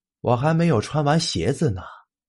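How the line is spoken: Slow, drawn-out voice. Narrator (Chinese): 小贾的声音慢腾腾的传了出来

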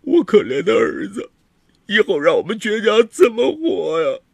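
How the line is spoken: Loud wailing. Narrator (Chinese): 王磊也嚎啕大哭

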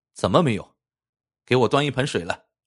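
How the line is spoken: Cold sneering. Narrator (Chinese): 金翠冷笑一声

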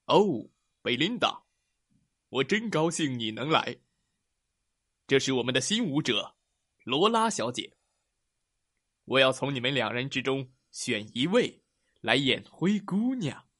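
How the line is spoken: Smiling. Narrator (Chinese): 面带微笑的说

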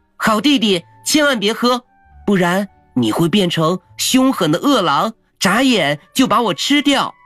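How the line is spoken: Urgent shout. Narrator (Chinese): 小姐姐赶紧大喊

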